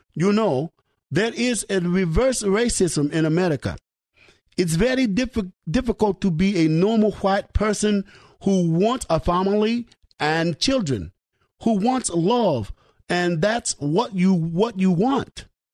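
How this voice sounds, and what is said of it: Put-on Russian accent. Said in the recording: “my effort in a Russian accent.”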